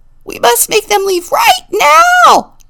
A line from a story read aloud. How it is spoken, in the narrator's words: Granny Goat shrieked